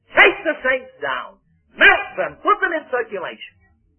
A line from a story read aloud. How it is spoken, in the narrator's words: said the general, as he roared at the man